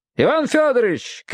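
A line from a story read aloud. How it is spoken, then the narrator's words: Shouted. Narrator (Russian): крикнул Ратманов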